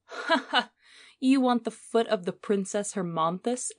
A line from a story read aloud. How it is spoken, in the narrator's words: exclaimed the merchant, with a strange giggle